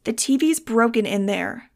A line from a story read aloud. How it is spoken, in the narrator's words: Star snapped